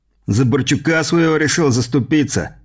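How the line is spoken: Smirking grunt. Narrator (Russian): хмыкнул третий из борзых

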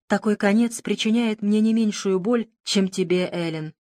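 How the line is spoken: Sad tone. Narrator (Russian): сказал я печальным тоном

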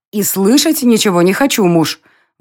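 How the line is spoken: Exclaiming. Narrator (Russian): воскликнула Лейла

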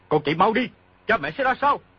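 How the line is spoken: Shouting. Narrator (Vietnamese): quát

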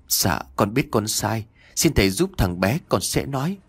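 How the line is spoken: Trembling man's voice. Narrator (Vietnamese): Chồng của bà Hương giọng run rẩy

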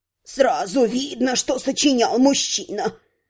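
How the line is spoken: Grumbling. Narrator (Russian): проворчала Вента

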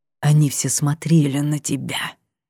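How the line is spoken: Strangled angry whisper. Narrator (Russian): вспорол тишину сдавленный злой шепот

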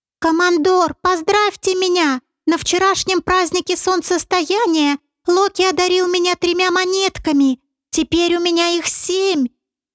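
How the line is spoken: Thin squealing babble. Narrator (Russian): Тонким голосом, визжа, словно девка, пролепетал Поганец

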